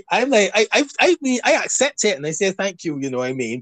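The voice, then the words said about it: Barbadian accent. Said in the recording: “you're just turned on by my accent ... Barbadian accent”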